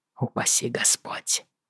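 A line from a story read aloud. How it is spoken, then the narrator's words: Hoarse. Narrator (Russian): хрипло ответил Джейми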